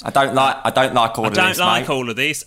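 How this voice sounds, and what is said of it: Uncanny imitation, Northern English voice. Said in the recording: “from the North... I can't do the voice... It's uncanny.”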